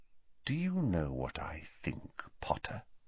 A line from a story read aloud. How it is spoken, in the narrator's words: said Snape very quietly